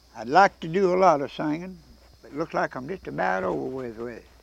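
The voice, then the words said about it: Hoarse, strained older voice. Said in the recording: “I'm pretty hoarse. Seems like I can't get it back. ... Seems like I can't never get my voice straightened up”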